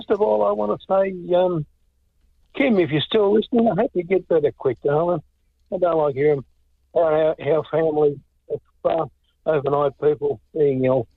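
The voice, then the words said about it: Cracking hoarse voice, sore throat. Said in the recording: “you can hear my voice cracking ... that sore throat”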